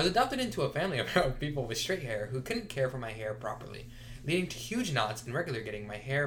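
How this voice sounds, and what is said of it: Usual voice. Nothing is said of it.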